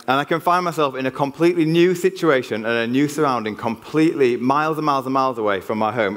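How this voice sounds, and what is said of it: Yorkshire English accent. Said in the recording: “"Are you from Yorkshire?" And they can just tell it. ... the smooth tones of the Yorkshire accent ... my Yorkshire accent flows out of me and I can't do anything about that and people spot it”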